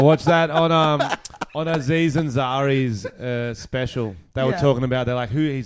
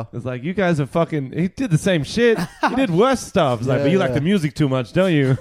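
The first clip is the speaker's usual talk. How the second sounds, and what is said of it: Imitates another person's voice, badly. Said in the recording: “that was a really bad impression... who's he trying to be? Is he trying to be Aziz here or someone else?”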